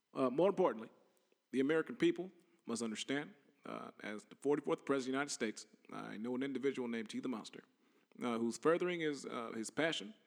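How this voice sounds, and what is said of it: Barack Obama impression. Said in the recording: “I'm talking like Barack Obama ... I'm also doing impersonations.”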